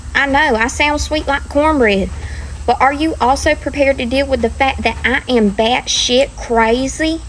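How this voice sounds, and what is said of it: Southern US accent. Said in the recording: “Where is this accent? ... It's Georgia, Georgia or Alabama. ... That sounds like Alabama to me.”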